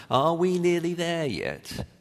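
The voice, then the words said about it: Whiny child's voice. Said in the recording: “in that lovely, so gorgeous, whiny voice that children have after they've been traveling for about 3.5 minutes, shouts out”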